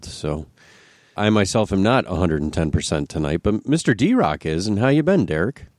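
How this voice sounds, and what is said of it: Congested, sick head-cold voice. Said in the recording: “is under the weather today, folks. I apologize in advance. I'm sure you can hear it in my voice, but I have quite a head cold.”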